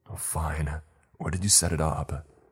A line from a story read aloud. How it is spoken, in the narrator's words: Ryan sighed and said